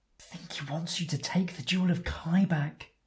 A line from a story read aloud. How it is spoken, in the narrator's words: Edas whispers